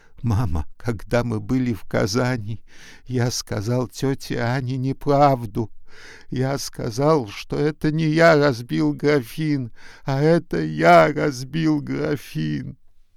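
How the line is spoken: Sobbing boy. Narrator (Russian): мальчик, всхлипывая, сказал

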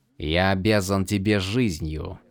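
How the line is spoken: Pained growl. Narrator (Russian): прорычал Адалин, как будто ему было больно произносить эти слова

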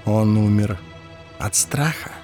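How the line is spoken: Whispered question. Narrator (Russian): шепотом спросил Ларт

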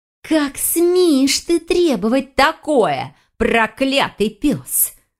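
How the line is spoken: Muffled hiss behind door. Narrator (Russian): зашипела ведьма за дверью

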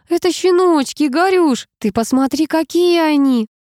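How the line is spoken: Squeaked. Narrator (Russian): пропищала

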